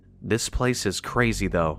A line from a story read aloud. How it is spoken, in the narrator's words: murmured